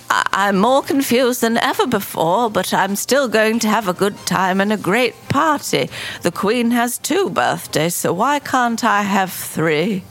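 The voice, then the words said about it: Put-on old woman's voice. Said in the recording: “I'm going to do an old voice to make it more entertaining ... I'm just adding some age to make it more exciting.”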